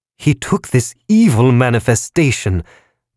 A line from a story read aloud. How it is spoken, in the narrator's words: the creditor balloon shouted